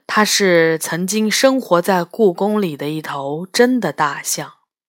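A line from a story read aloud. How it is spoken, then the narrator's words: Soft voice. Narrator (Chinese): 领头的宝象，轻声说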